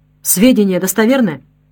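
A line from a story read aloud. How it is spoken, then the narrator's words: Sharp question. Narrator (Russian): Гитлер резко спросил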